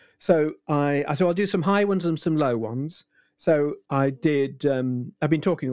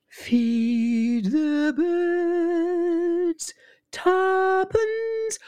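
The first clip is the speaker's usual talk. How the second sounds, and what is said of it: High-pitched imitation of another voice. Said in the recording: “I'll try a high voice. So I did Julie Andrews.”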